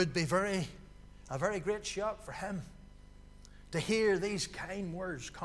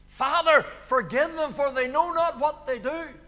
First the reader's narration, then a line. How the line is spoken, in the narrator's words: he cried out in their defense